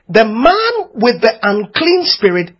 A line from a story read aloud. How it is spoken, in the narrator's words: he cried out